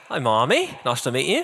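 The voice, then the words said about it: Speaks with a put-on accent. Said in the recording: “Oh, you've got a nice accent.”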